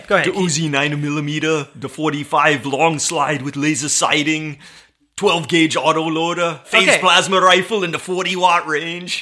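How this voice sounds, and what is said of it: Poor Arnold Schwarzenegger impression. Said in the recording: “You just wanted to do his accent... I wanted to do his whole gun speech from the Terminator... even a good one either. It was pretty bad.”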